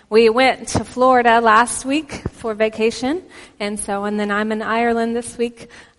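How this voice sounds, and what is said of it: Texan American accent. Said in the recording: “my accent is a Texan accent”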